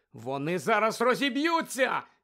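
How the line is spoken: Shouted. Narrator (Ukrainian): закричала Герміона

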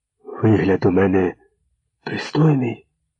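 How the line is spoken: Whispered question. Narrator (Ukrainian): спитав пошепки

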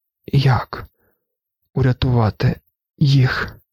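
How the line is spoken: Whispered. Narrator (Ukrainian): прошепотів Лето

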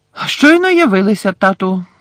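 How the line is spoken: Loud announcement. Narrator (Ukrainian): голосно повідомив Персі

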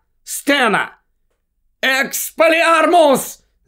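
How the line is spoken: Shout. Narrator (Ukrainian): закричав Гаррі

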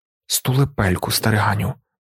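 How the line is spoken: Muttering. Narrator (Ukrainian): пробурмотів Кайнс

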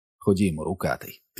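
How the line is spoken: Quiet. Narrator (Ukrainian): тихо промовив Стів

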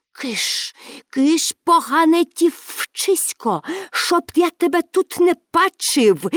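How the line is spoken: Hissed. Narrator (Ukrainian): засичав він

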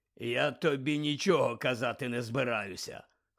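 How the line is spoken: Hoarse. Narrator (Ukrainian): хрипко мовив Муді

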